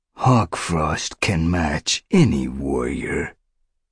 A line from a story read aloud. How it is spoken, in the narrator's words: he purred, smooth as honey